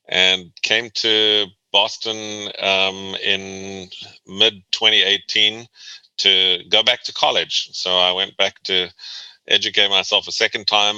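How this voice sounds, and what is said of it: South African accent. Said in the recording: “hear a little bit of an accent ... You're not a Bostonian ... I was born and raised in South Africa”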